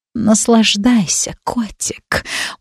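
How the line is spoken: Witch purring. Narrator (Russian): мурлыкнула ведьма

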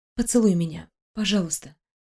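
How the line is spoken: Barely parted lips whisper. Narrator (Russian): прошептала, едва размыкая губы

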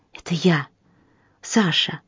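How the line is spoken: Whisper. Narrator (Russian): шепнул человек

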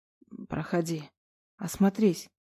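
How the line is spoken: Hoarse whisper. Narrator (Russian): прошептал он сипло

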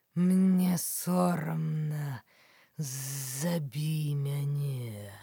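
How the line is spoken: Hissing cobra. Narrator (Belarusian): сыкнула белая кобра

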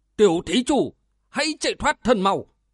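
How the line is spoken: Deep shout. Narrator (Vietnamese): ông trầm giọng quát

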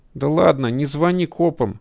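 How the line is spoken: Whiny voice. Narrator (Russian): говорит он ноющим голосом

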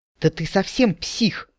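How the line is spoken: Breathed out. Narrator (Russian): выдохнула я

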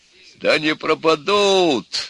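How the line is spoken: Old sailor's exclamation. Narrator (Russian): воскликнул дед Кузьма, храбрый старый матрос

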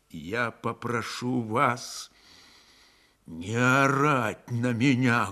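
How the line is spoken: Muffled, dull. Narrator (Russian): глухо сказал Григорий

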